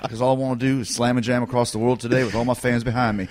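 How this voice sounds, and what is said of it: Put-on southern US accent. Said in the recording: “I had like a southern accent.”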